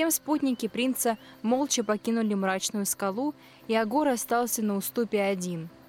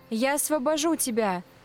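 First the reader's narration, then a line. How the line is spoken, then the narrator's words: Passionate exclamation. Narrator (Russian): горячо воскликнула она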